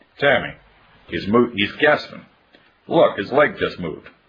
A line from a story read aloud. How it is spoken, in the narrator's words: Carol's stepmother, Margie Birch, suddenly cried